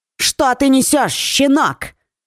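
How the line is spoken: Barking. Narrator (Russian): рявкнула женщина

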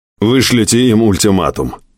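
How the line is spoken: Stern voice. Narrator (Russian): суровым голосом сказал Дэвид Корман

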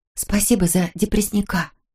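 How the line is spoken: Whispered. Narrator (Russian): шепнула

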